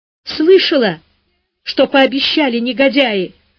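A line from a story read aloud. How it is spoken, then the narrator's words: Sobbing mutter, aged mother-in-law. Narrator (Russian): всхлипывая бормотала разом постаревшая свекровь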